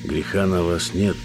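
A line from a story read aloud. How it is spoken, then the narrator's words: Strained, forced. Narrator (Russian): Я лишь выдавил из себя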